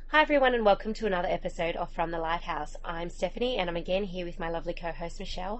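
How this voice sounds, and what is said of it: Congested, slightly rough voice. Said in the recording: “Apologies for my voice today, I have a bit of a cold”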